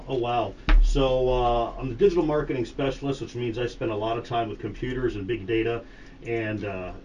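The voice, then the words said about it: Polished radio-announcer voice. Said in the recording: “got an amazing radio voice”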